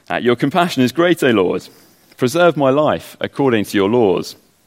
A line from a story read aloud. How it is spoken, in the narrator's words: the psalmist cries out